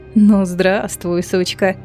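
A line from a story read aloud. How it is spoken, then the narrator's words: Purred. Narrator (Russian): промурлыкала Ансель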